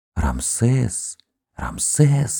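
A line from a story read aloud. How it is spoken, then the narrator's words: Whisper from above. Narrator (Russian): донесся шепот сверху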